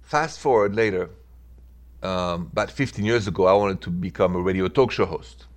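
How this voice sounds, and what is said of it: Thick French accent. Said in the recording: “with a thick French accent like me, no one could understand me”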